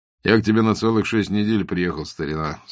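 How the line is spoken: Plain. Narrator (Russian): сказал ему Базаров

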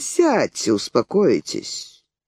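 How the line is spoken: Quiet, even voice. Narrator (Russian): Ревизанов продолжал тихим и ровным голосом

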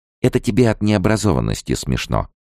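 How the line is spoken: Plain. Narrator (Russian): сказала я

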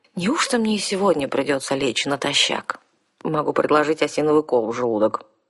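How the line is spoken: Mumbled. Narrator (Russian): пробормотала наемница

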